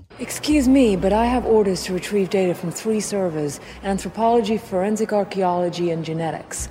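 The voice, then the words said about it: Poor, half-hearted British accent. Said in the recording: “here she is using her accent poorly ... it's so halfway. It's so halfway.”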